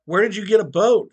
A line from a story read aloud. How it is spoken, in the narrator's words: yelled back